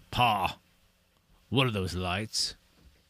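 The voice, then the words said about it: Deeper voice, southern accent. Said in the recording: “his voice was a lot deeper ... he has a southern accent”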